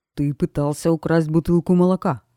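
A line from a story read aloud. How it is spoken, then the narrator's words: Growled, policeman. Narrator (Russian): прорычал полицейский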